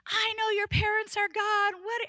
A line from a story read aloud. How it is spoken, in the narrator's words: he's just yelling and yelling and yelling